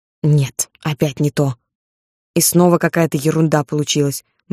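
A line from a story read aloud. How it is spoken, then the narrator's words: Repeated muttering. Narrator (Russian): бормотал он после каждого щелчка камеры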